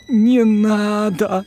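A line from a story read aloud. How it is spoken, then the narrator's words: Moaning. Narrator (Russian): простонал Гарри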